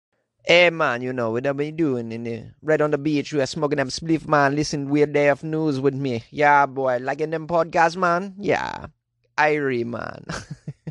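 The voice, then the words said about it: Put-on Jamaican accent. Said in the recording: “What do you guys think of my Jamaican accent? Jonesy does some accents, none of them very well. Some of them pretty good.”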